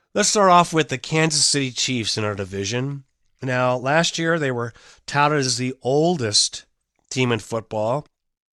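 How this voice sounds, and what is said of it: Congested voice with a cold. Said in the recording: “I have a cold. So if I sniffle here and there”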